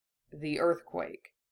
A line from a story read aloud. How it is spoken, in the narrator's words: asked quietly, his voice dead calm